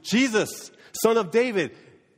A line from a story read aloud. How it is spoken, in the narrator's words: he shouts to Jesus